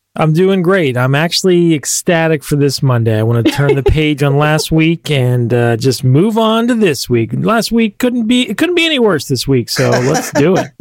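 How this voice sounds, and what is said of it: Happy, upbeat lilting voice. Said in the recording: “You sound so happy, right? ... the lilt in my voice”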